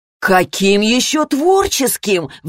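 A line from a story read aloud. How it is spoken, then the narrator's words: Roaring father. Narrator (Russian): взревел папа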